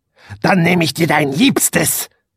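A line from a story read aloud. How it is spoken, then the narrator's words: Witch hissing. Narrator (German): fauchte die Hexe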